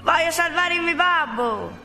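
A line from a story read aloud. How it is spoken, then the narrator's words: Shouted. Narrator (Italian): gridò Pinocchio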